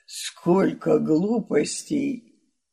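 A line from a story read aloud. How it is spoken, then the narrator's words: Grumbling. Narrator (Russian): проворчав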